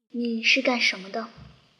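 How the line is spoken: Cold question. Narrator (Chinese): 冷冷地问

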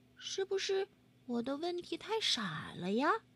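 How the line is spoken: Quiet, soft. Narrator (Chinese): 菲儿小声说

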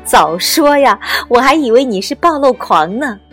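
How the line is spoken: Laughing. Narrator (Chinese): 邓田试了一把笑出来的眼泪，说

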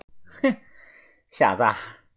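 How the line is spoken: Sneering laugh. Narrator (Chinese): 呵呵，他冷笑的说道

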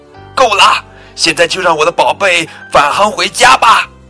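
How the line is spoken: Loud shout. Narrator (Chinese): 布朗太太朝着宇航中心的管理员大声喊道

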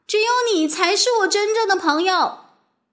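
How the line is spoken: Loud shout. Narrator (Chinese): 麦吉娜大声喊

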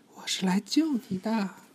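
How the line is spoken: Softly. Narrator (Chinese): 她轻声说

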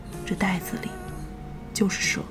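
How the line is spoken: Soft, boy. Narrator (Chinese): 拎蛇皮袋的男孩 轻声对我说

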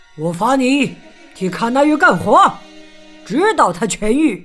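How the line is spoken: Loud. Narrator (Chinese): 国王对着狼大声说

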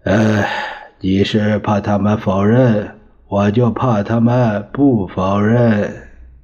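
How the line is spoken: Sighing. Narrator (Chinese): 蒋介石叹息着说

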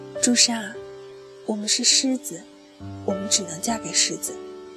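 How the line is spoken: Resigned sigh. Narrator (Chinese): 丽丽 只能叹了一口气，说

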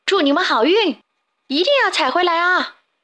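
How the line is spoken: Group shouting. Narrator (Chinese): 他们喊道

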